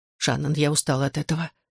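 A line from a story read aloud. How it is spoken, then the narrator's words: Plain. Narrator (Russian): сказала она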